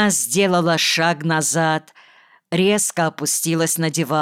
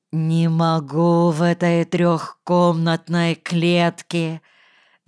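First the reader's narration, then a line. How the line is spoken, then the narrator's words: Drawn-out muffled groan. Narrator (Russian): с глухим стоном протянула она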